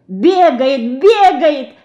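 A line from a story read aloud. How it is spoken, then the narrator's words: Delighted shout. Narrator (Russian): в восторге кричала Динка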